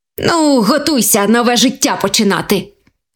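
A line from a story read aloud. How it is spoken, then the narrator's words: Happy exclamation. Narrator (Ukrainian): Вигукнув щасливий заєць до своєї сім'ї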